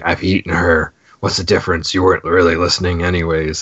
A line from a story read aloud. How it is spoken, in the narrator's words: a voice is growling